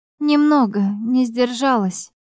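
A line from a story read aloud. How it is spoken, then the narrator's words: Sighing. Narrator (Russian): вздохнула я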